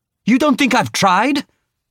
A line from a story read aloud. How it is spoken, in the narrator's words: Victoire snapped